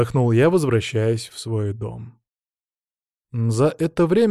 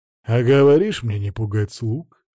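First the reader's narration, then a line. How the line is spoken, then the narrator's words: Amused snort. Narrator (Russian): хмыкнул Оливер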